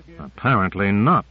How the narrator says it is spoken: said Grant grimly

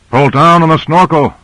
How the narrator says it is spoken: yelled Grant

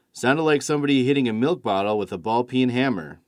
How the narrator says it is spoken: said George

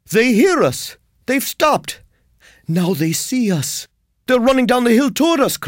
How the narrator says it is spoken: cried Ulrich

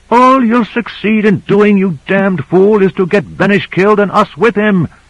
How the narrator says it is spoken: yelled Michaels

